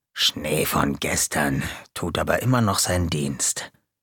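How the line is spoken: Murmured backstage. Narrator (German): Hinter der Bühne murmelte Gonko

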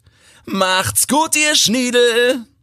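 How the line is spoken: Child calling out. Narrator (German): hopst ein rotbärtiges Kind mit Glatze an ihnen vorbei und ruft

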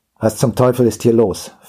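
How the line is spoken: Harsh demanding voice. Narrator (German): verlangte er mit barscher Stimme zu erfahren

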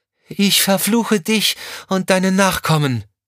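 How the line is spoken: Calling out. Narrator (German): rief sie dem Mann zu

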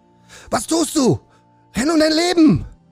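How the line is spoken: Shouting urgently. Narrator (German): schrie Kai Weiß ihn an

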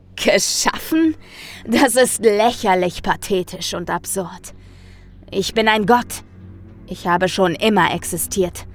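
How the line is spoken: Thundering. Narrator (German): donnerte ich dem Wesen entgegen

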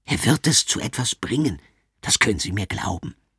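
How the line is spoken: Director whispering. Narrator (German): flüstert der Direktor zu

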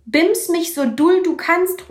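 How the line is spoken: Calling out. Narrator (German): ruft

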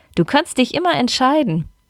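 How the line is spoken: Bursting out laughing. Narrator (German): lachte Pia auf

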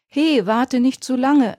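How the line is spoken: Calling after someone. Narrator (German): rief Ronny ihm nach

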